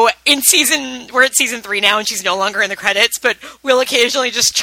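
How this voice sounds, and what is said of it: Usual voice. Nothing is said of it.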